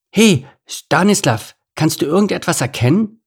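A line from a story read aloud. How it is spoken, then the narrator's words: Calling out. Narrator (German): rief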